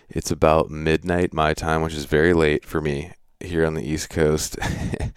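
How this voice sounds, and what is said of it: Froggy, hoarse voice. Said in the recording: “pardon my voice if I sound a little froggy or I'm like just sound weird”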